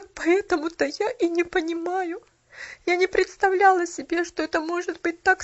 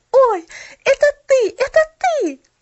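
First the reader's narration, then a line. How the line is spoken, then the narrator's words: Exclamation. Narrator (Russian): воскликнула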